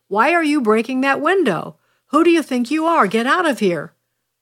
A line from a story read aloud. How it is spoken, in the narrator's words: the man in black shouted at him